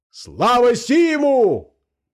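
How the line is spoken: Loud yell. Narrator (Russian): провопил кто-то

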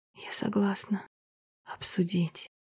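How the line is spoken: Breathless exhale. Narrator (Russian): выдохнула

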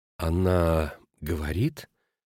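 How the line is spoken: Hesitant, uncertain. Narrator (Russian): неуверенно продолжала госпожа Шмидт

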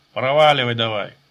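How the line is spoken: Old man's near-goodnatured bark. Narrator (Russian): почти добродушно рявкнул старик

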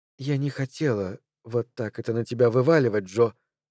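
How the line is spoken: Whisper. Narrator (Russian): шепнула она

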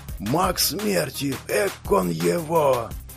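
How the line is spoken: Fearful whispers. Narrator (Russian): Раздались опасливые шепотки

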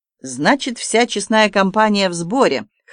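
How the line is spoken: Amused grunt, Frenchman. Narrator (Russian): хмыкнул француз

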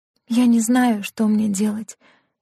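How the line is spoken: Soft whisper. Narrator (Russian): мягко шептала она

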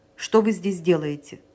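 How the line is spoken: Stern question. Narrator (Russian): строго спросил его Санин

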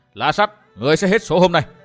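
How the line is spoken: Loud laughing shout. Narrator (Vietnamese): Phan Thao phá lên cười ha hả quát to

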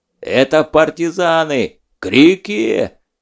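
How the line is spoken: Yelling. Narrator (Russian): заорал Скуратов

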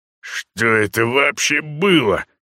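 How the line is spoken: Near growl. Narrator (Russian): практически прорычал Вагар

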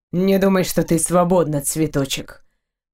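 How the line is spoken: Cold, curt. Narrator (Russian): холодно бросил

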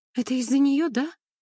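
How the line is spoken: Sobbing girl. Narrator (Russian): всхлипнула девушка

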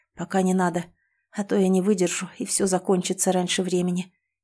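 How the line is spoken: Hoarse. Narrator (Russian): хрипло произнес

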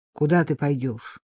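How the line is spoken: Gloomy question. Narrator (Russian): мрачно спросил Микки

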